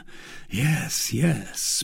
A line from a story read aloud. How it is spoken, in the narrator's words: murmured D'Artagnan